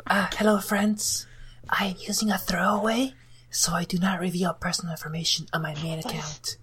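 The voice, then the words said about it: Whispering. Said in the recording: “why you're whispering, so your parents don't hear.”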